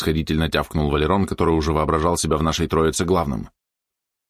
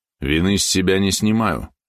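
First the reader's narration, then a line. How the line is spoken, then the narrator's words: Gloomy. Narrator (Russian): мрачно сказал Маренин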